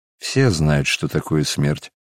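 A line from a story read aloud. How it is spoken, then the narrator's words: Answered sadly. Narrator (Russian): ответил Варавва грустно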